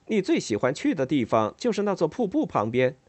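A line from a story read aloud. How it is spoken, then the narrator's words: Laughing addition. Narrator (Chinese): 他笑了起来，接着又补充了一句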